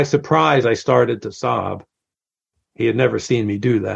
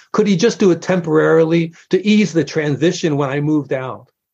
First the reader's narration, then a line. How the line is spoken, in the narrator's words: pleaded